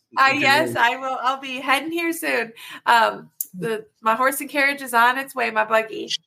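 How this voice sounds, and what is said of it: Southern twang accent. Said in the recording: “With your southern twang accent ... that's a southern twang”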